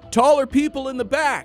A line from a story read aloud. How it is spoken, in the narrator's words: yelled